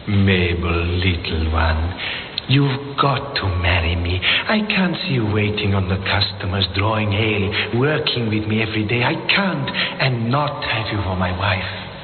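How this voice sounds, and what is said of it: Slight intriguing foreign accent. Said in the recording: “An interesting accent, hmm? Intriguing. ... that voice and that touch of accent”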